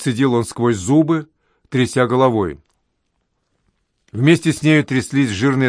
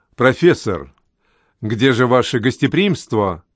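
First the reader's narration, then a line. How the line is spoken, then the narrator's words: Plain. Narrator (Russian): спросил я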